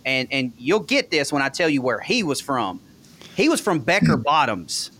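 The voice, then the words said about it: Strong regional accent. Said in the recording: “y'all think my accent's bad now”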